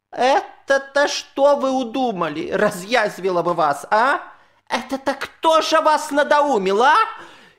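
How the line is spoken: Distant shouting old woman. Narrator (Russian): Еще с реки, из лодки закричала бабушка

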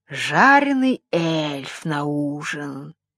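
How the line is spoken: Purring witch. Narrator (Russian): промурлыкала ведьма

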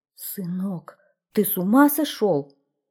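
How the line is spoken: Queen's exclamation. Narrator (Russian): воскликнула королева

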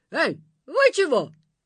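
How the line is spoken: Monster shouting. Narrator (Russian): закричало чудовище

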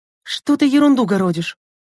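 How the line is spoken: Trembling voice asking. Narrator (Russian): дрожащим голосом спросила Лена

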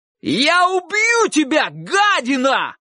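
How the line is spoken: Thunderous shout. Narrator (Russian): громовым голосом закричал

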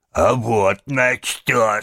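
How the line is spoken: Deep bass voice. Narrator (Russian): сказал басом

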